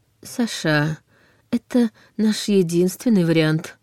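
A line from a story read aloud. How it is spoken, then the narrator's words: Soft. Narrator (Russian): мягко заметил Войтых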